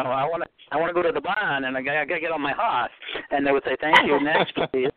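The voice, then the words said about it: Boston accent like Kennedy. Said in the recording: “get in control of my accent ... See, I even have it here now ... You sound yeah. Like Kennedy. ... I can really turn it on if I want”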